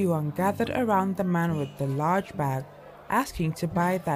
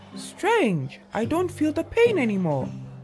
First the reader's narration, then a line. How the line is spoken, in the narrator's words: Suddenly, he exclaimed